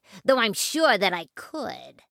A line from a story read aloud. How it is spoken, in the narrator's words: sneered the rat